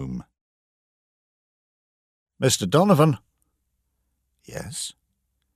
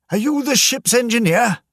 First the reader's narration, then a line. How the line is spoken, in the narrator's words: shouted